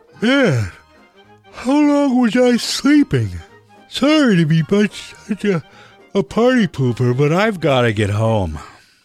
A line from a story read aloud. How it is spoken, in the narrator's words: Richie woke up, yawning